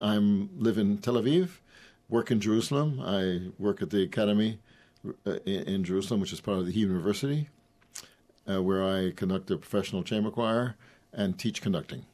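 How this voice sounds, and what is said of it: Foreign-sounding accent, not local. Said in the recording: “We can hear by your accent that although you live in Tel Aviv, you weren't born in Tel Aviv.”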